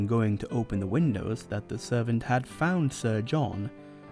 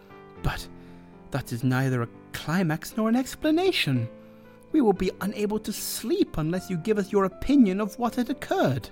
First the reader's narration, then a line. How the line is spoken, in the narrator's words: One of them exclaimed